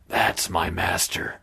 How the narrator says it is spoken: Connell hissed

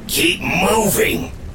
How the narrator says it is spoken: the voice hissed

